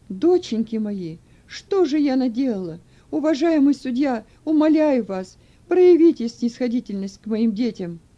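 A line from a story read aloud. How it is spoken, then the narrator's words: Distraught pleading cry. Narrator (Russian): их мать потеряла сознание, а затем, придя в себя, закричала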